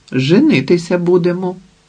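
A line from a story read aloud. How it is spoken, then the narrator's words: Plain. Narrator (Ukrainian): відповів Платон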